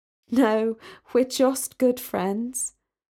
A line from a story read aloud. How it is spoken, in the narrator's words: Sally laughed and said